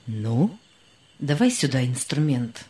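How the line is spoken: Calm. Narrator (Russian): сказал он спокойно

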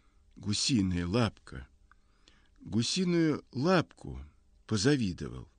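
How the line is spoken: Faint tearful whisper. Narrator (Russian): Я едва вышептываю сквозь слезы

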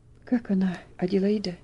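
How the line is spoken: Strained attempt at calm. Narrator (Russian): спросил мистер Динсмор, тщетно пытаясь говорить спокойно и уверенно

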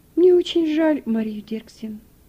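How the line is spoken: Sigh. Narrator (Russian): вздохнула хозяйка

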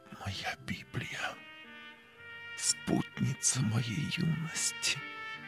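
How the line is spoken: Whisper. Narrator (Russian): прошептал профессор

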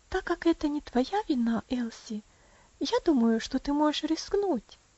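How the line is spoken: Gentle, kind. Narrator (Russian): ласково сказала Роза

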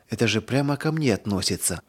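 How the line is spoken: Whisper. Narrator (Russian): прошептала она

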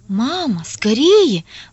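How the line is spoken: Anxious speech. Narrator (Russian): взволнованно говорила Оля

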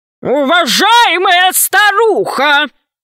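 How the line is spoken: Thunderous voice. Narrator (Russian): громовым голосом произнес Громозека

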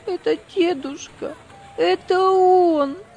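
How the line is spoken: Voice broken by sobs. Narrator (Russian): Прерывающимся от рыданий голосом повторяла она

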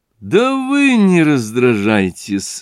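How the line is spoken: Forced laugh. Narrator (Russian): засмеялся через силу Зосимов

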